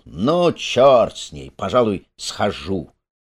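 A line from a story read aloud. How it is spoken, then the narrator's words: Drawled. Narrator (Russian): Он протянул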